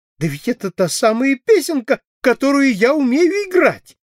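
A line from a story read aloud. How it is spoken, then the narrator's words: Exclaimed. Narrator (Russian): воскликнула она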